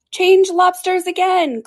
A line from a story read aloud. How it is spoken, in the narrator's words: cried the Gryphon at the top of his voice